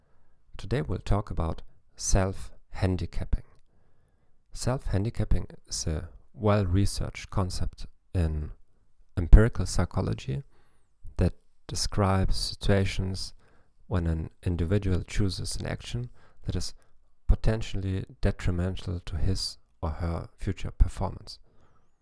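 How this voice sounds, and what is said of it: German accent in English. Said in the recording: “in English with a German accent.”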